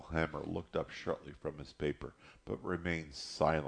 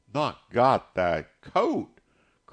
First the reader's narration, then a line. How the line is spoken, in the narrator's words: cried Big Ma